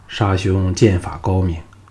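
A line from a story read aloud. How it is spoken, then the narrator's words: Faint smile. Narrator (Chinese): 项少龙向龙阳君淡淡笑意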